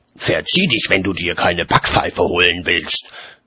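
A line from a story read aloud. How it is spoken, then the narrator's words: Growled. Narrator (German): knurrte Mum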